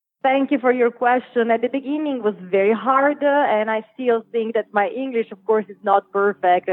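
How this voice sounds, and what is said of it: Italian accent. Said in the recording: “you obviously have an Italian accent”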